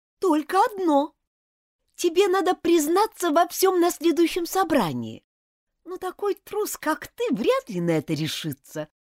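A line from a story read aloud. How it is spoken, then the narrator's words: Grumbled. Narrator (Russian): проворчала Элизабет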